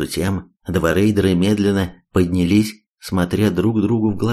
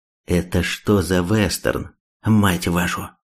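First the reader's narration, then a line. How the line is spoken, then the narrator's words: Calm, through gritted teeth, drawling. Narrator (Russian): Третьяк глубоко вздохнул и заговорил вполне спокойно, сквозь зубы, чуть растягивая слова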